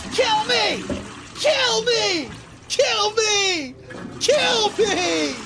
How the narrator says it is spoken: the only thing I can fucking scream back at him is

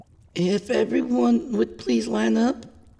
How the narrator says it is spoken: she called, her voice shaky

